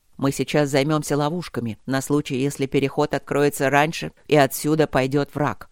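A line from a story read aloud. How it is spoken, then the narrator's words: Plain. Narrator (Russian): сказал Нефиди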